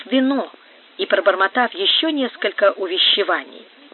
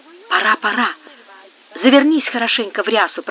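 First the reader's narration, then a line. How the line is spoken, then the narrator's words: Whisper. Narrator (Russian): прошептала она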